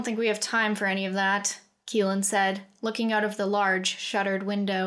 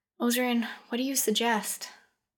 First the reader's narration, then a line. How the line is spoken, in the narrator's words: The half-elf sighed